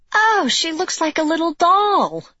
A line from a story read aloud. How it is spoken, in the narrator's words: gasped Lexi